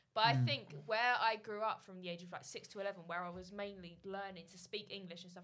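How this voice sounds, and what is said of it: Slightly Australian-sounding English accent. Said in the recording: “you sound really Australian ... specific words that I would pronounce sound Australian ... my accent's a little bit different”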